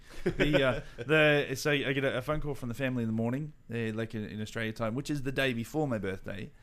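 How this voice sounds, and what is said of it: Australian accent. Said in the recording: “in Australia time. So that's where my strange accent's from”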